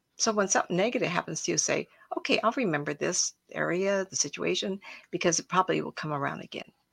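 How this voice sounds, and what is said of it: Slightly rough voice. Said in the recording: “My voice is somehow a little rough tonight.”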